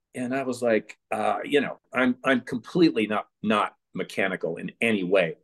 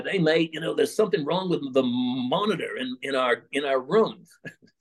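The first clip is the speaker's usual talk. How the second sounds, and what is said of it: Poor put-on English accent. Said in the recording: “Pardon the terrible English accent.”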